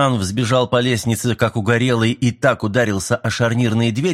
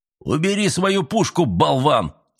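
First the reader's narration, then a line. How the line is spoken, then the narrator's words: Barked. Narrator (Russian): рявкнул Мэлори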